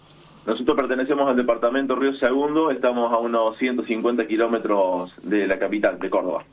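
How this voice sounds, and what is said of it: Slight Córdoba Spanish accent. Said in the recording (Spanish): “Tenés tonada, che. ... Un poquito de tonada cordobesa.”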